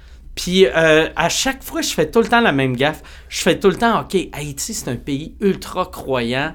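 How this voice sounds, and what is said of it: Strong Québécois French accent. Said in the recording (French): “mon accent est trop québécois”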